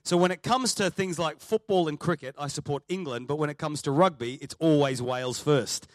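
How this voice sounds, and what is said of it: Australian accent. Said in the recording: “My accent is Australian.”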